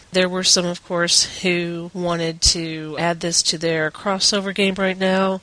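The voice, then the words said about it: Congested voice from a cold. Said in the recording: “Please forgive my voice, as I've been suffering from allergies and a cold ... So I may not sound like myself”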